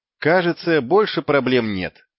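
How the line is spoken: Plain. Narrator (Russian): сказал

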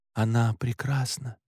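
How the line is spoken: Quiet reply. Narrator (Russian): так же тихо ответил я

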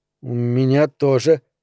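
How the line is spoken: Stammered reply. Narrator (Russian): заикаясь, ответил он, не раздумывая

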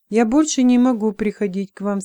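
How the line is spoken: Plain. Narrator (Russian): сказал Мира

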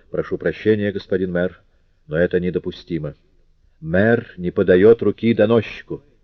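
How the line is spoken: Stern, uncompromising tone. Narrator (Russian): Жавер произнес непримиримо суровым тоном

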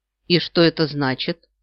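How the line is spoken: Dry, faintly hostile question. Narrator (Russian): сухо спросила я, невольно чувствуя некоторую враждебность по отношению к этой женщине

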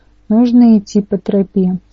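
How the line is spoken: Calm answer. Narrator (Russian): спокойно ответила Рэйчел

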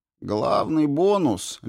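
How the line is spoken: Lazy commentary. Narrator (Russian): лениво комментирует наш штатный кулхацкер

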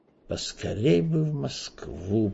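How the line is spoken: Muttering. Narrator (Russian): пробормотал Эраст Петрович, с тоской

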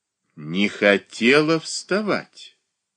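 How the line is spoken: Slow repetition. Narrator (Russian): медленно повторила Софья Андреевна

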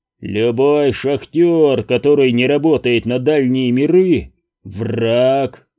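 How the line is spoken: Roaring. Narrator (Russian): проревел он

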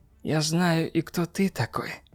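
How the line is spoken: Near whisper. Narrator (Russian): продолжала она почти шепотом

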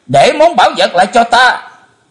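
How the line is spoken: Terrified scream. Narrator (Vietnamese): Chí Tôn hết đói kinh hoàng thét lớn

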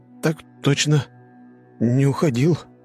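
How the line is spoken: Mumbled. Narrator (Russian): промямлил Блейз

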